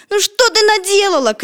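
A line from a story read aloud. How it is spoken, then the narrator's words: Shouted. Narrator (Russian): крикнул Петя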